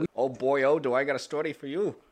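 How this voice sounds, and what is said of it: Failed Scottish accent, sounds Irish. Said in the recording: “That was my attempt at an accent. It didn't work. ... That was more Ireland than anything”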